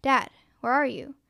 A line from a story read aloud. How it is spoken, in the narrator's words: choked out